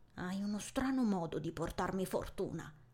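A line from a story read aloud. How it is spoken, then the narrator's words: Muttered instinctively. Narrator (Italian): borbotto istintivamente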